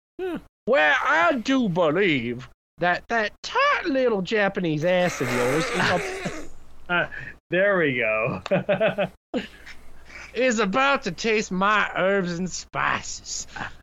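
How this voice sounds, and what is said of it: Exaggerated southern American accent. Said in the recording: “Give a very offensive southern accent”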